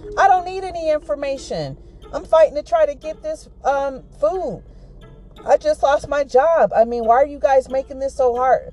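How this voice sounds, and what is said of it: Raised, angry shouting voice. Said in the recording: “Ma'am, please, I'm going to ask you to really lower your voice.”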